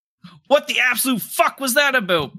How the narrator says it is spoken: Bart yelled

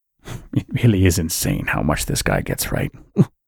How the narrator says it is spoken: Scott mutter to himself

